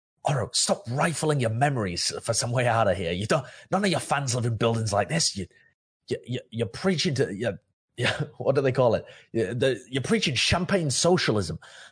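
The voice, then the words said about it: Hissed whisper. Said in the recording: “whisper, ... I'm going to kind of hiss”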